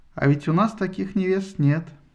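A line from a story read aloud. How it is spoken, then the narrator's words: Said sadly. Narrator (Russian): печально сказал Кастор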